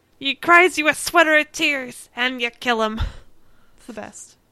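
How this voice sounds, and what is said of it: Sailor accent, Mr. Krabs impression. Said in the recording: “That was my sailor accent. ... Do you mean Mr. Krabs? ... He has a sailor accent. ... I thought it was a good accent. ... It's pretty good.”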